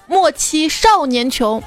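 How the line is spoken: Angry shout. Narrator (Chinese): 很多人都会愤而大喊一声

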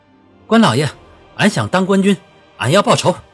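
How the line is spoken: Loud reply. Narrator (Chinese): 胡春大声回道

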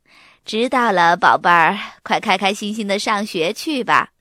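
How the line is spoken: Smiling, cheerful. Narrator (Chinese): 妈妈笑盈盈地说

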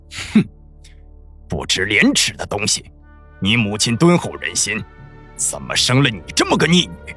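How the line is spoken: Cold sneer. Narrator (Chinese): 苏黎冷冷一笑

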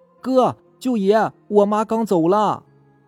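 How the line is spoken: Shouting. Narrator (Chinese): 老二大喊起来

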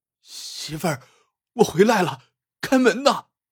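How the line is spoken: Shouting, near tears. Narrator (Chinese): 带着哭腔喊道

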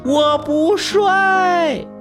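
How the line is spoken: Loud shouting. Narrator (Chinese): 我……大声的喊道

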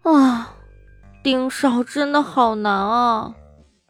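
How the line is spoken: Inner lament. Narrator (Chinese): 在心里哀叹

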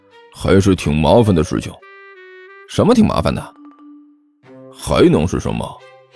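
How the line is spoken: Hushed reply. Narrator (Chinese): 尼采压低声音回答道

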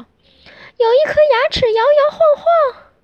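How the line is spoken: Girl shrieking. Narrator (Chinese): 小公主尖叫

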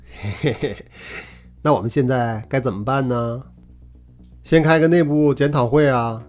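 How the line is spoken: Carefree teasing chuckle. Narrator (Chinese): 曾日华满不在乎的嘿嘿笑起来，调侃道

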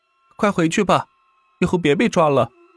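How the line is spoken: Shout. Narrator (Chinese): 胡三才喊道

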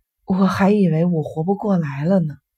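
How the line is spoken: Breathless. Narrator (Chinese): 病人喘了口气

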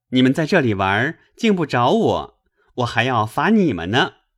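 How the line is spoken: Laughing. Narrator (Chinese): 宝玉笑道

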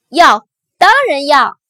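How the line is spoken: Happy loud shout. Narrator (Chinese): 安迪高兴的大声喊道

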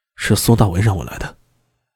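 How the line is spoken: Low, after deep breath. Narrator (Chinese): 深吸了一口气，他低声道

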